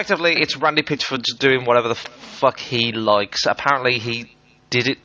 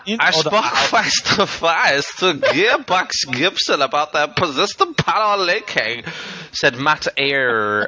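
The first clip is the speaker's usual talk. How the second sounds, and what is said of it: Put-on accent like the meerkat. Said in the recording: “Why am I like that guy, like the meerkat? ... I won't do that accent anymore”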